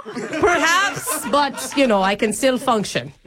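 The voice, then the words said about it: Mixed Australian Irish British Scottish accent. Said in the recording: “my Australian, Irish, British, Scottish accent ... It's really hard to listen to”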